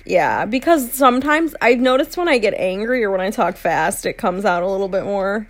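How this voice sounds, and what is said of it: Midwestern American accent. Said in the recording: “the Midwestern American accent is so hard to break ... I can't get rid of it”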